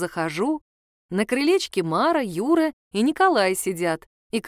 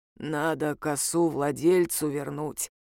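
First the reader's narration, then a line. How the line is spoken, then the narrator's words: Hoarse rasp. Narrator (Russian): прохрипел Юрец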